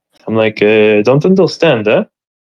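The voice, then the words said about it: Put-on accent. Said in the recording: “I put on like a little accent”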